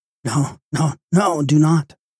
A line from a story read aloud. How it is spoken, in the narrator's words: cried the lady